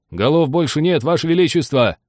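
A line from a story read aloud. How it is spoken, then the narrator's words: Soldiers shouting. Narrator (Russian): крикнули солдаты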